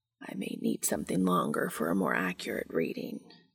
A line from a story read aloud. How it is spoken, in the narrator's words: Cass muttered against Dean's ear